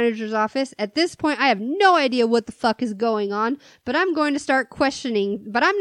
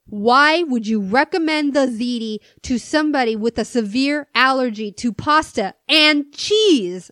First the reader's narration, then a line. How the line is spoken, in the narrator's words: she screams at me